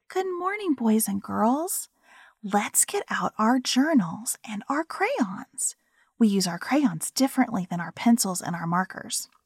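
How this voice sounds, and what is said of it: Kindergarten teacher voice. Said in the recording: “do a kindergarten teacher voice”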